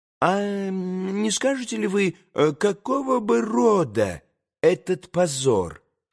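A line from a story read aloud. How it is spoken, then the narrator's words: Faltering babble. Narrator (Russian): пролепетал было Николай Парфенович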